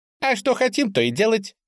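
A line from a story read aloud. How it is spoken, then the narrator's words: Loud squeak, bat. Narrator (Russian): громко пискнула летучая мышь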